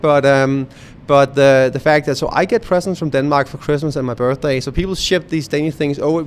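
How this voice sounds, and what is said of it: Danish accent. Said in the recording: “I'm native Danish, you can probably tell by the accent”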